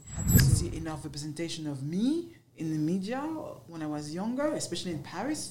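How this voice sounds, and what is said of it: French accent. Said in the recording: “you hear your accent. Oh my gosh, you're French.”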